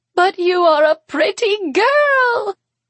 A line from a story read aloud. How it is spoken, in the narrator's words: Theodora says and cackles